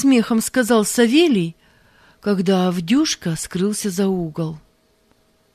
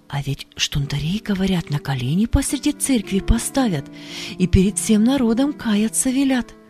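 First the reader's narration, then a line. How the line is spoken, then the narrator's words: Whisper. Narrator (Russian): шепнула она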